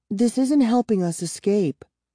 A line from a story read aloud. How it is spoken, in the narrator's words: she whispered